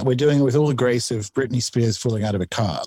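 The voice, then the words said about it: Australian accent. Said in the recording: “I'm in Australia. If people haven't worked out from the accent”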